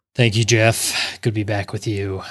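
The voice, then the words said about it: Low, tired-sounding NPR-style voice. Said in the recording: “You sound exhausted. ... This is my NPR voice”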